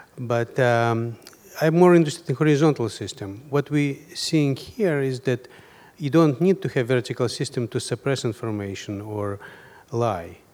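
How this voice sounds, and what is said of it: Foreign accent. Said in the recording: “I did live in a country which did have vertical systems ... as you can hear by my accent.”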